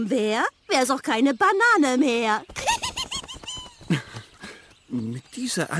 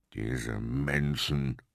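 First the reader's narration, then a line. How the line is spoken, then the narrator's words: Growled. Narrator (German): knurrte Kurt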